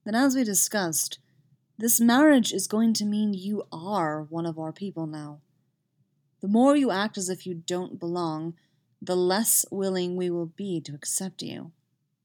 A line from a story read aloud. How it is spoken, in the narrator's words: says gravely